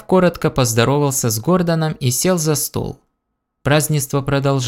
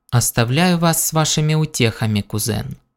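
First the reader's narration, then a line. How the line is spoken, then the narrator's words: Icy tone. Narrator (Russian): сказала она ледяным тоном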